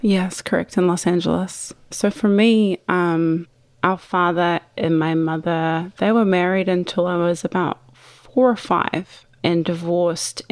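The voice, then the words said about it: Non-American accent. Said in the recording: “based on your accent, I'm assuming she's not American”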